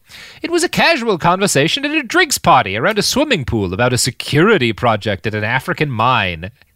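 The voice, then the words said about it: Put-on accent while quoting. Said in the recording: “I love this accent you're doing”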